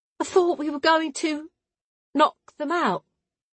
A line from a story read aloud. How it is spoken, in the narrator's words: Clara said in a small voice